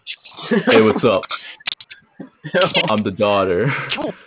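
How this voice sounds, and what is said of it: Deep voice playing a baby. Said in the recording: “deep voice”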